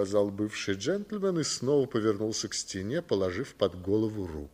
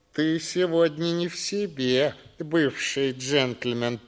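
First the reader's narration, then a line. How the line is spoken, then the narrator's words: Grumbling. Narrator (Russian): пробурчал Боген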